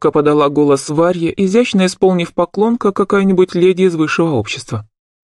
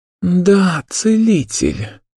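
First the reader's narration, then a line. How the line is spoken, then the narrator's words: Relieved exhale. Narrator (Russian): выдохнула я, чувствуя, как напряжение немного отпускает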